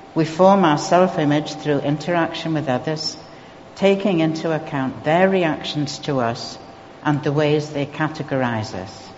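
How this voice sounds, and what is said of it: Geordie English accent. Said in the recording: “my Geordie accent”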